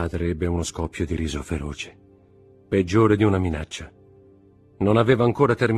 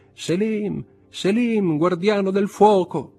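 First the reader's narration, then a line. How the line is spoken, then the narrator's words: Shout. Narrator (Italian): gridò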